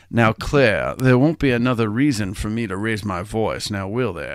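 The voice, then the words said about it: Imitates another person's voice. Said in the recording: “I'm going to do an impression of Spacey”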